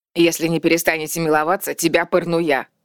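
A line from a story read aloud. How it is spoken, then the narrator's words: Barked. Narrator (Russian): рявкнула Бертель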